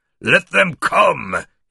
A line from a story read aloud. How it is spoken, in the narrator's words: he roared